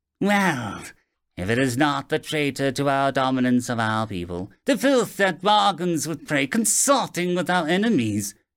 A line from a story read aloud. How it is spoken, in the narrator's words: Ilthus sneered